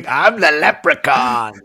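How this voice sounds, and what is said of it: Imitates the Leprechaun character's voice. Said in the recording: “your impression”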